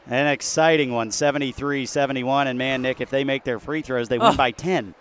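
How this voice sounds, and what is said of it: Hoarse, nearly lost voice. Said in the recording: “I came into tonight with little to no voice to begin with, and I think that was out the door in the first quarter... my voice is gone... it was worth losing my voice”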